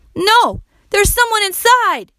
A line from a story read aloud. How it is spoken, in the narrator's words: cried